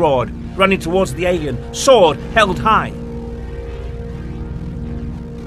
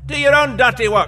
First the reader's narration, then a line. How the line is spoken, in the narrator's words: the skirted one shouted up